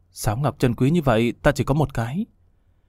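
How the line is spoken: Soft sighing mutter. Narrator (Vietnamese): khẽ thở dài lẩm bẩm

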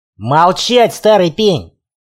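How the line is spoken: Growl. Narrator (Russian): рыкнул я

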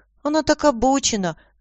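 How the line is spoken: Confused reply. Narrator (Russian): растерянно ответил

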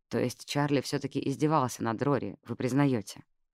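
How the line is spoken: Plain question. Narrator (Russian): спросила Джаз

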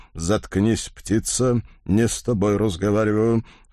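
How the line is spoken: Cold request. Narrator (Russian): холодно попросил господин исправник

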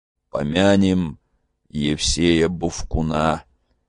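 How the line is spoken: Gloomy. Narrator (Russian): мрачно сказал Петро

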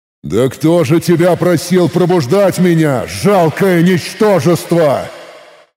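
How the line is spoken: Loud, slightly furious. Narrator (Russian): Громко произнес я, выпустив с этими словами совсем немного ярости изнутри

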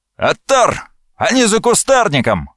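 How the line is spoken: Exclaimed. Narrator (Russian): воскликнул поручик

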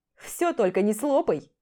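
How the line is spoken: Wry snort. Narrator (Russian): хмыкнул он

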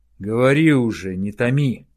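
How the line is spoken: Growled. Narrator (Russian): рыкнул Хауда

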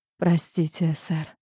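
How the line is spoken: Trembling voice. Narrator (Russian): дрожащим голосом произносит Одри

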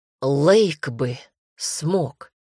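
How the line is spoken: Angry hiss. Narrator (Russian): зло прошипел Дамер

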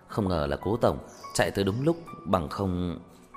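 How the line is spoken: Frightened inner exclamation. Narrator (Vietnamese): Trong lòng Tiểu Vương còn đang sợ hãi cảm thán một câu

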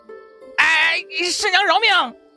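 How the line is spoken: Yelping in pain. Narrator (Chinese): 龙桥广被掐得直叫唤

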